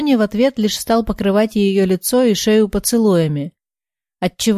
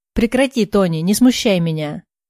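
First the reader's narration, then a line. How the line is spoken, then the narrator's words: Laughing. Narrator (Russian): Рассмеялась девушка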